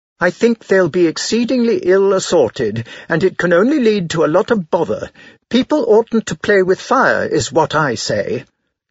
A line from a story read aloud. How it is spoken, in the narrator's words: snapped Madame Bontemps, furious